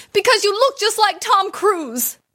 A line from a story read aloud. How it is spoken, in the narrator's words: Without thinking, she shouted back